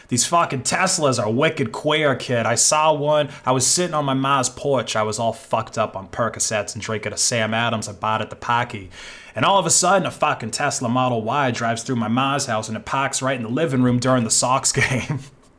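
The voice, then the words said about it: Exaggerated Boston accent. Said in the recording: “only Boston people are going to get that horrible accent.”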